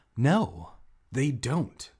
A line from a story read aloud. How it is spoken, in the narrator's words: Hannah replied sharply